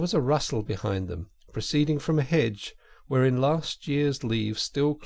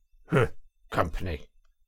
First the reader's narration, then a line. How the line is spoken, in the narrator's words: The badger grunted